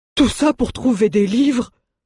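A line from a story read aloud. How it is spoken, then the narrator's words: Exclaimed. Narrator (French): s'exclama Mjoln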